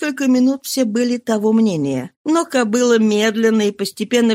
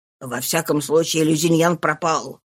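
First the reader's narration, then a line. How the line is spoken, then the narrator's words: Muttering. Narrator (Russian): пробормотал Лафлуас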